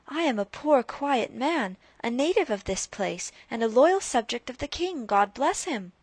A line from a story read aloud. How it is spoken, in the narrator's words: cried Rip, somewhat dismayed